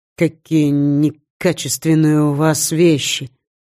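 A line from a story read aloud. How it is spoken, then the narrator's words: Sigh. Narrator (Russian): вздохнул Скандер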